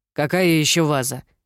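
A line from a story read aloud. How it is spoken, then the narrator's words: Irritated question. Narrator (Russian): раздраженно переспросила тетя Шарлотта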